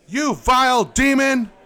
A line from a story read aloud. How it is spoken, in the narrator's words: I shouted